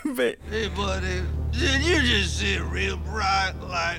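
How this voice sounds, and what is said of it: Imitates a movie character's voice. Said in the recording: “do that voice more often ... I didn't mean to sound like Dennis Nedry there”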